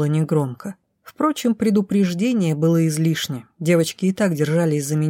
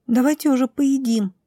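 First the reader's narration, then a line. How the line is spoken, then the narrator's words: Squeak. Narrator (Russian): пискнула Милена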